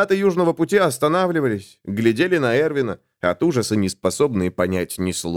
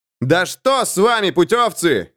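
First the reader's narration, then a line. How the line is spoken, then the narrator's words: Yelling. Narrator (Russian): заорал Эрвин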